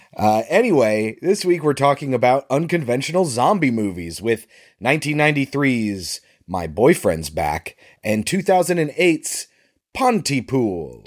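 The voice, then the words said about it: Sick, congested-sounding voice. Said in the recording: “we're both kind of sick... is worse than me this week... I'm sure you can hear it in my sexy voice.”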